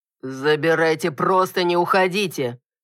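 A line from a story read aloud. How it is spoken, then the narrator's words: Furious growl. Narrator (Russian): Яростно рыкнул муж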